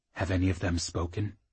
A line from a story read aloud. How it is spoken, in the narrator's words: he whispered